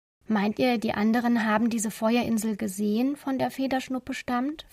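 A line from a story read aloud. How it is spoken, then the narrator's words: Plain question. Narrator (German): fragte Frieda Elsa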